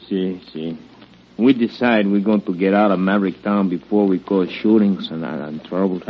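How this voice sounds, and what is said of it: Foreign-accented English. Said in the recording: “Now you're actually talking like a foreigner.”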